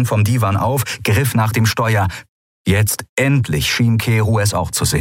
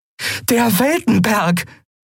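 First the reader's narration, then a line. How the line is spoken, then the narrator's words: Called out. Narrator (German): rief Andriel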